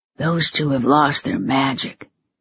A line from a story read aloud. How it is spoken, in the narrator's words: Teddy whispered